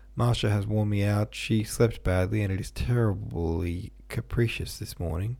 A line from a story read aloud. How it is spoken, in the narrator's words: said Dolly